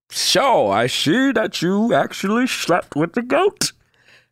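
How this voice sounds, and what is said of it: Bane movie villain impression. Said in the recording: “Where my Bane at? ... It was the worst Bane impression ... not a bad Bane. Not a bad Bane.”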